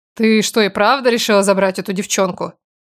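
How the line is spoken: Snorting mutter. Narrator (Russian): уточнила она и, хмыкнув, пробормотала

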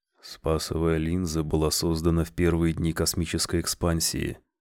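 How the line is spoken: Quiet. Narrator (Russian): тихо произнес он

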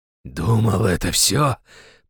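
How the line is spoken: Hoarse rasp. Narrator (Russian): прохрипел главарь

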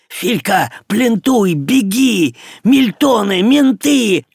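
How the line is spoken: Three shouting in unison. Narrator (Russian): Враз крикнули ему все трое

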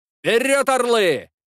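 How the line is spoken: Shouted. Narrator (Russian): крикнул лейтенант

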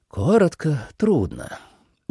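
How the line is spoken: Tired. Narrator (Russian): устало сказал Кофу

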